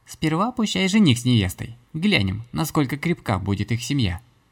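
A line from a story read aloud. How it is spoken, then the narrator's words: Snide, envious. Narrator (Russian): Ехидно прищурилась Злата, с завистью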